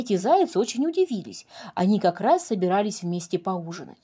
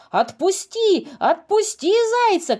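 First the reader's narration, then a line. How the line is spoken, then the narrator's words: Group shouting. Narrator (Russian): кричали они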